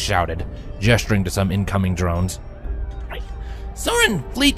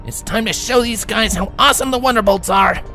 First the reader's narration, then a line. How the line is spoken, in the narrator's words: Rainbow Dash shouted in her usual enthusiasm